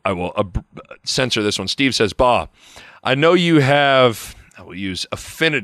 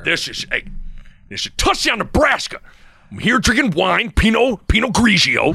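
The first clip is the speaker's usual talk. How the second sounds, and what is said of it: Impression of Greg Sharp. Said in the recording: “your Greg Sharp impression is spot on ... give us a Greg Sharp”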